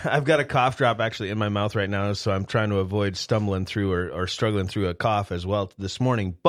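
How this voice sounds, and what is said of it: Slightly sick-sounding voice. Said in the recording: “I have been sick as a dog, and you can probably hear it in my voice a little bit”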